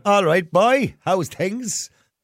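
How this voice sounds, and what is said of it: Attempted Cork accent. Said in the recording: “I'm doing my best Cork accent there. Didn't work out.”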